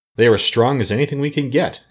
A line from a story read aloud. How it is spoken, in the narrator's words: answered the woodman